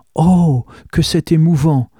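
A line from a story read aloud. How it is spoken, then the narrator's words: Widow exclaiming. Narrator (French): s'exclama la veuve Mouaque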